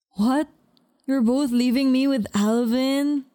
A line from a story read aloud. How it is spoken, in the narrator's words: Nico whined, playfully